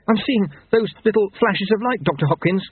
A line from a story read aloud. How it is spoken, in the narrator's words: said Jeremy urgently